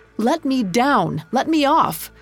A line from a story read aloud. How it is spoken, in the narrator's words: shouting